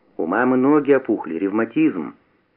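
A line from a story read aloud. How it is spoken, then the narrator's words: Plain. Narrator (Russian): сказал Куница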